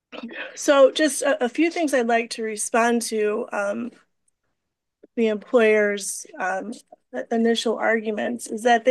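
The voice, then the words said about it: Hoarse, weak voice. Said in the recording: “forgive my voice, I'm fighting a cold. So if you can't hear me, just ask me to speak up”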